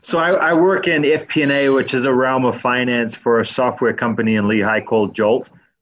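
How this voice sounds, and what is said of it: Noticeable accent. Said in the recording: “Good to hear that accent”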